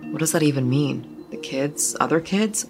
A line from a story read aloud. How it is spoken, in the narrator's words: Sarah asked